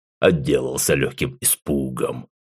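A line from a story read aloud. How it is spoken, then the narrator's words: Snort. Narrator (Russian): хмыкнул Зул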